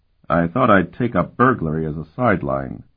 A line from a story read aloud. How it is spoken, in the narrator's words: Sparhawk replied dryly